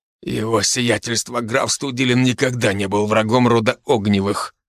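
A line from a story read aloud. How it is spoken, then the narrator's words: Angry, through gritted teeth. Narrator (Russian): зло процедил сквозь зубы Иннокентий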